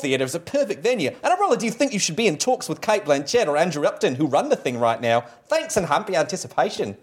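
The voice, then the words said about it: Mixed put-on Cockney-Australian accent. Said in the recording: “the mashup of weird Cockney and poor Australian, and maybe just a hint of New Zealand ... with an underscore of stupid American the entire time ... I was just listening to your accent”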